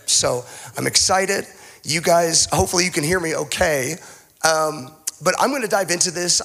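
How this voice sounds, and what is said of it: Shaky voice from a cold. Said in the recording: “he's got a bit of a cold... My voice is a little bit better than theirs... my voice is still a little bit shaky.”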